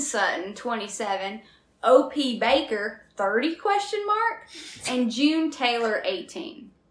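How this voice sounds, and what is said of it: Southern accent slipping in. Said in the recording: “my southern accent's going to come in on this. I can't help it ... It was when you said the numbers that it really got me”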